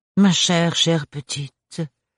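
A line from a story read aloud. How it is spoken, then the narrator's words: Compassionate sigh. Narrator (French): soupira la rapporteuse d'une voix compatissante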